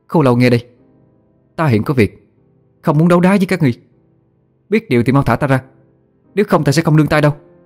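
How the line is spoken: Loud. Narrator (Vietnamese): lớn tiếng nói

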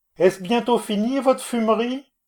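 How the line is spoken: Shouted. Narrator (French): je criai

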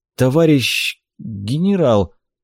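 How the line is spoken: Confused mumble. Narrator (Russian): Растерянно пробормотал

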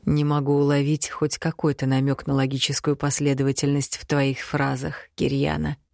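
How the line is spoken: Quiet. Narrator (Russian): тихо произнес

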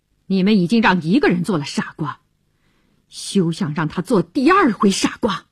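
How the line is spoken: Cold. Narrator (Chinese): 乔治对他冷冷地说

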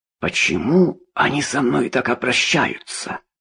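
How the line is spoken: Hoarse rasp. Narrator (Russian): прохрипел судья

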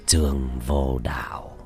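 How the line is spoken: Old man, soft smile. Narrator (Vietnamese): Lão nhân khẽ mỉm cười

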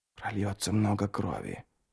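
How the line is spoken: Whisper. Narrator (Russian): прошептал Ярви

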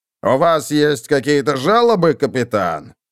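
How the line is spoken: Growling. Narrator (Russian): прорычал он

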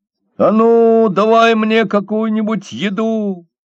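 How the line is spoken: Shouted. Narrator (Russian): закричал он

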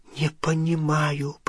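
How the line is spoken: Whisper. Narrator (Russian): прошептала она

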